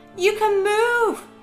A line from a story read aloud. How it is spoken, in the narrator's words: shouted in disbelief